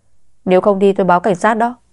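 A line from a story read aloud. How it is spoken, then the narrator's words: Raised voice. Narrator (Vietnamese): Bảo vệ thấy cô còn không chịu đi thì cao giọng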